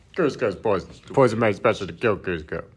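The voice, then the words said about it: Impression of Kronk. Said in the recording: “Can you do the Cusco voice? ... It's the Kronk.”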